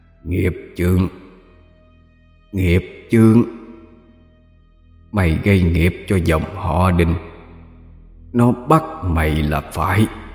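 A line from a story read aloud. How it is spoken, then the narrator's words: Hoarse voice. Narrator (Vietnamese): Thầy khàn khàn cất tiếng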